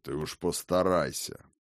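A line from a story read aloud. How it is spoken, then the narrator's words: Dry old man's reply. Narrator (Russian): сухо отозвался старый Хрофт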